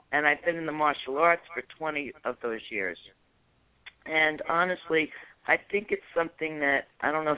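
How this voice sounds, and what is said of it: New York accent. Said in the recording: “As you probably heard from my accent, I'm originally from New York”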